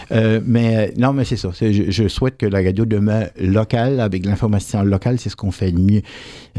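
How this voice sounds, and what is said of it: Regional French accent. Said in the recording (French): “Moi, j'ai un accent, j'en ai pas honte.”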